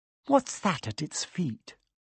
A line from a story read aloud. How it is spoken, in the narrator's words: Hermione whispered